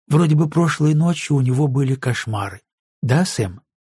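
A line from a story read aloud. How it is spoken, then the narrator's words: Calm, matter-of-fact. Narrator (Russian): Она говорила спокойно, без снисходительности, будто все это совершенно естественно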